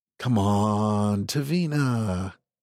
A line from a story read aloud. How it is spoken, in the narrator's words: he said, his voice smooth and sweet